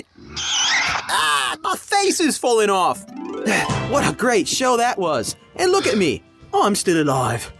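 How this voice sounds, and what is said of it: Bad put-on Australian accent. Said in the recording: “a horrible Australian accent. Wouldn't even pass for New Zealand.”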